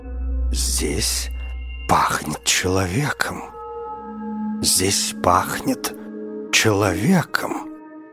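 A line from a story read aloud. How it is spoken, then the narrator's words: Growling. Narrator (Russian): прорычало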